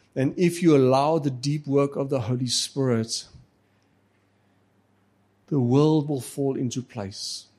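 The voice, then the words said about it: Afrikaans accent in English. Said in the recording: “My accent in English and Xhosa and everything, just it's Afrikaans.”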